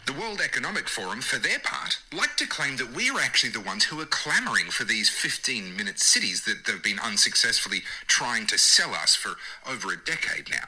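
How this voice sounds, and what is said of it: English accent, pleasant speaking voice. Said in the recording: “Dude's got a great English speaking voice, you know, English accent.”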